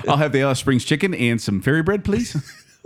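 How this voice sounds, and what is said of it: Australian accent drifting into Kiwi. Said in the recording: “It's a little Kiwi on there... My New Zealand and Australian kind of merge into each other.”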